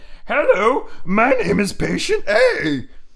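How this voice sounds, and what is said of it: Imitates another person's voice. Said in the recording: “That's my impersonation... That's a little Paula Deen... old Paula Deen... And not a good Paula Deen... And or Miss Piggy.”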